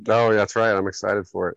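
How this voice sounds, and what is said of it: Flat, monotone deadpan delivery. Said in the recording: “I can tell by your tone there ... he's pretty monotonous ... It's all deadpan.”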